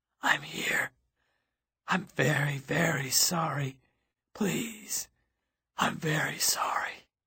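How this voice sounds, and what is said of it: Small, hoarse, broken voice. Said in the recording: “The voice was very small and very hoarse. ... He sounded broken, shattered.”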